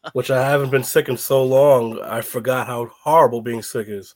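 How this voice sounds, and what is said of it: Raspy, sick-sounding voice. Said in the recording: “I'm sick, so if I sound a little raspy”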